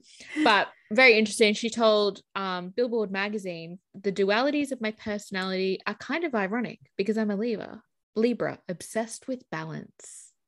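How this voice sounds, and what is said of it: Australian accent. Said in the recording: “I hate my Australian accent sometimes.”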